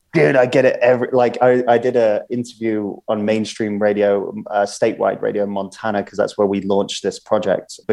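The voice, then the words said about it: British accent. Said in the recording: “this British accent ... Hey, you Brit”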